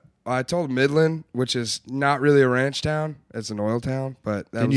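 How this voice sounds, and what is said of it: Usual voice. Nothing is said of it.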